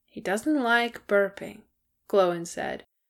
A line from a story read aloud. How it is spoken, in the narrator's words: his voice becoming slurred